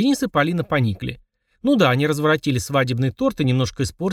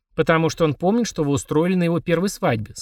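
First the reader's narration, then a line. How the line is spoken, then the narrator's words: Plain. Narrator (Russian): сказал папа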